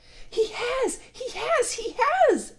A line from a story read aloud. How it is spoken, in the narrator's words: it squeaked